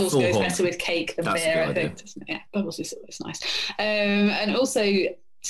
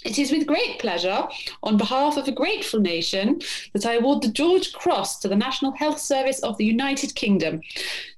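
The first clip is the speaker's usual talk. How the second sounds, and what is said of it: Imitates the Queen's voice. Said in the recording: “put on my best Queen voice.”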